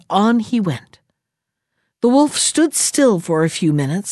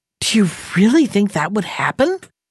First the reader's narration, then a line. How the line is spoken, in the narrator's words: he gasped